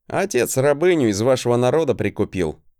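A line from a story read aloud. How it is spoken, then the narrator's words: Unbothered smirk. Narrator (Russian): хмыкнул я, не особо комплексуя от своего происхождения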